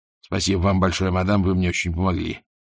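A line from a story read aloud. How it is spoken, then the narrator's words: Muttered. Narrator (Russian): буркнул Ваймс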